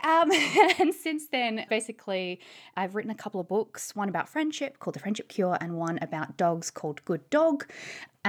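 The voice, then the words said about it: Australian accent. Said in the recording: “as you can probably tell from my voice, I'm originally an Australian”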